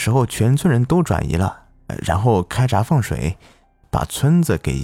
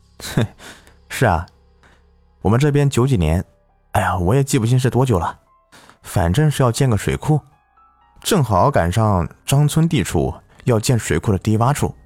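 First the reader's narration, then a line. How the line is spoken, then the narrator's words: Laughing. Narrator (Chinese): 我笑道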